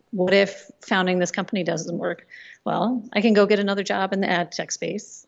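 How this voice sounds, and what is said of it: American accent. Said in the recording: “Your accent's a little too American.”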